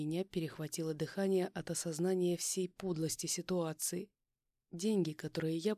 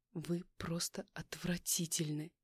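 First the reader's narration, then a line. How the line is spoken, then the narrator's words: Furious words through clenched teeth. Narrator (Russian): Процедила я сквозь зубы, чувствуя, как по телу разливается горячая волна ярости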